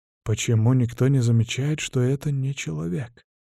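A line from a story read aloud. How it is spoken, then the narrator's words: Mumbling. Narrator (Russian): бормочет философ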